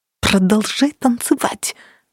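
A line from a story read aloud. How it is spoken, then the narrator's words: Hissing. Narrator (Russian): прошипела Кира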